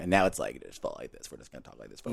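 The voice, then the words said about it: Low creaky vocal fry. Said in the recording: “Vocal fry.”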